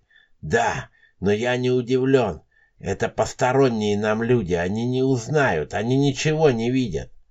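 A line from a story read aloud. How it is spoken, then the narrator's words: Muttering old man. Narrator (Russian): пробормотал странный старик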